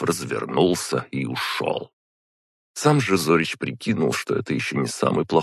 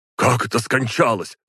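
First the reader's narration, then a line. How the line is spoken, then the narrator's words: Shout. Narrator (Russian): выкрикнул один из сильных магов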